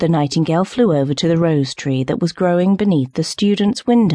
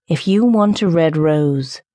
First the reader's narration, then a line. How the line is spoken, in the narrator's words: said the tree